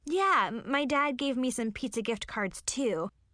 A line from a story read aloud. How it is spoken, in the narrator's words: I laughed